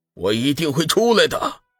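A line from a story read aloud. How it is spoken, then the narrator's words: Angry shout. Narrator (Chinese): 林峰怒喝一声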